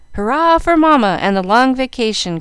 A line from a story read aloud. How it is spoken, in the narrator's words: cried Jack